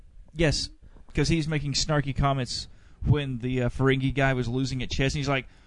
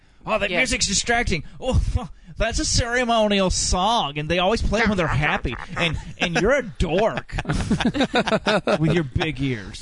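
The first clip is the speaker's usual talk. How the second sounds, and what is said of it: Good impression of Wesley Crusher. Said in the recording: “That was really good Wesley ... That was a very good Wesley impersonation ... he even had the face down, too”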